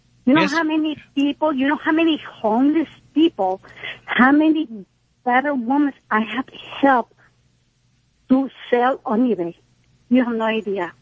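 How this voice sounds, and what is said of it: Hispanic accent. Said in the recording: “You say I have an accent. I'm Hispanic.”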